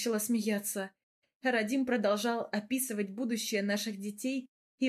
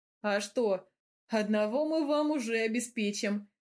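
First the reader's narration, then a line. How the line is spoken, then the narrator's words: Laughing. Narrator (Russian): Смеялся Гавр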